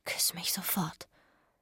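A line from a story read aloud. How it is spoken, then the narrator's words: Whispering. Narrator (German): flüsterte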